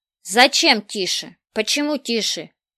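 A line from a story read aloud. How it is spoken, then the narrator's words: Loud shouting. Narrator (Russian): ничуть не понижая своего голоса, прокричал Мартын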